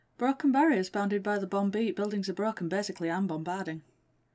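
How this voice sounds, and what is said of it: Northern English accent. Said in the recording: “It's because I'm Northern. ... my accent ... extremely UK-ish”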